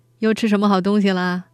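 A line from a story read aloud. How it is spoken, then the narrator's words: Shy laughing. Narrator (Chinese): 天宝总是不好意思的笑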